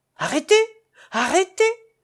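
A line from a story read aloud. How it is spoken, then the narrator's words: Distant shout. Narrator (French): cria une voix qui venait de la route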